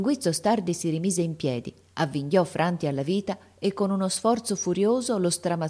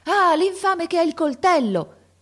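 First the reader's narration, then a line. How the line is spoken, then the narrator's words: Man's alarmed shout, running. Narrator (Italian): gridò un uomo accorrendo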